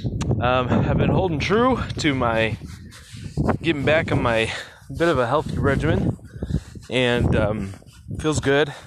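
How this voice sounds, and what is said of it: Out of breath, breathless speech. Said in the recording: “I'm a little bit out of breath.”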